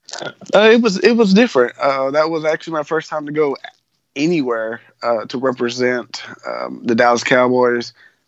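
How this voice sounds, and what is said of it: Texan accent. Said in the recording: “you're obviously from Texas, based on the accent.”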